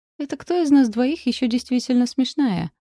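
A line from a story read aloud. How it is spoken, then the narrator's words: Cheerful smiling reply. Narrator (Russian): весело улыбнулась я в ответ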